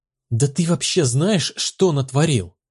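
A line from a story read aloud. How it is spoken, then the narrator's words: Furious hiss. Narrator (Russian): Яростно прошипел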